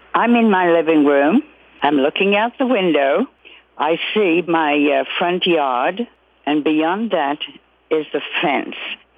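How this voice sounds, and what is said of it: Slight British accent. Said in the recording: “has a slight British accent”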